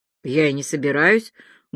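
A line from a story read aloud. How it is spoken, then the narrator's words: Muffled reply. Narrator (Russian): глухо отозвался Андрюша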